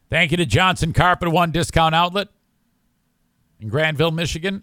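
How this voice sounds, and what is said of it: Strained, failing voice. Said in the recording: “I'm losing my voice ... My voice is killing me.”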